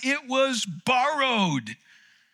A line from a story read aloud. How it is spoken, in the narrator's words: he cried out